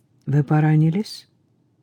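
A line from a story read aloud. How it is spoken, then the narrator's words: Soft, sympathetic. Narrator (Russian): голос молодого человека прозвучал сочувственно, мягко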